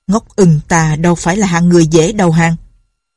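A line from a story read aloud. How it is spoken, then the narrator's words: Bald old man, harsh voice. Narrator (Vietnamese): Lão đầu hói gằn giọng nói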